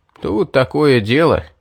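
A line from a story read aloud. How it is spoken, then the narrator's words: Sad sigh. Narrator (Russian): печально вздохнул Стоун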